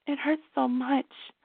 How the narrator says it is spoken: Melissa whispered

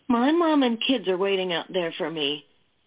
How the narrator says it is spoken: the blonde cried

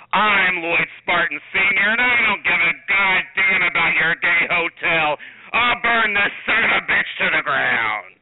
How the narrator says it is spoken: red-faced and disheveled, the rough-and-tumble man thundered

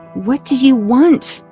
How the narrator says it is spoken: I screamed back

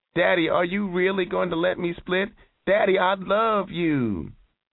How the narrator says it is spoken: Her eyes were misty when she yelped

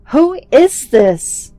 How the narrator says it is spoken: Angrily, I screamed

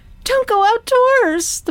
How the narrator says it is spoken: the person shrieked, completely freaked out

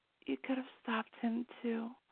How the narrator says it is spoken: she whispered hoarsely

